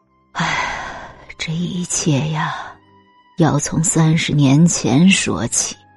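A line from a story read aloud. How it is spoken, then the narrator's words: Slow sighing mother. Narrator (Chinese): 周母叹了口气，缓缓道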